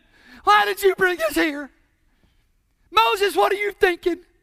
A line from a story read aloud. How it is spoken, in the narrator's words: they whined and they cried